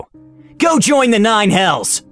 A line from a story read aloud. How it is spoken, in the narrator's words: I screamed